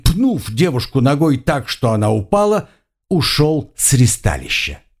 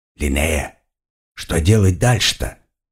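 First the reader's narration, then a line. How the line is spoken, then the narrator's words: Hissing. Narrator (Russian): прошипел я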